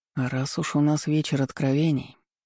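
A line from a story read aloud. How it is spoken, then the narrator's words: Sigh. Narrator (Russian): Олег вздохнул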